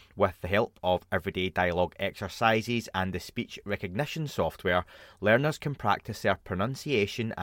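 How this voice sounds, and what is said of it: Dodgy non-native English accent. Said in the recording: “I should really learn English given my dodgy accent”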